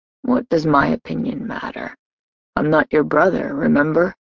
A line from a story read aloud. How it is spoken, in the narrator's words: Kellen asked softly